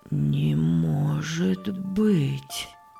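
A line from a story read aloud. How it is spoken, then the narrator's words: Objecting with heavy sigh. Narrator (Russian): возразил Иосиф и тяжело вздохнул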